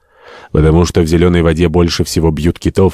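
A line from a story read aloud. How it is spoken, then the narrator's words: Plain. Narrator (Russian): ответил Симпсон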